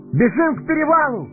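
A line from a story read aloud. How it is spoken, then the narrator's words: Ringing shout. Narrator (Russian): звонко закричал Фродо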